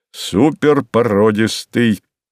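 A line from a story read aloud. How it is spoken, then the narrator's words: Deep bass voice. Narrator (Russian): пробасил он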